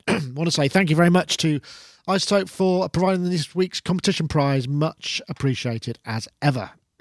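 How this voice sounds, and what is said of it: Slightly hoarse, throaty voice. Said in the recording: “I've got a bit of a frog in my throat.”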